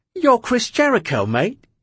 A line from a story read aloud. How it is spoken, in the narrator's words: he said excitedly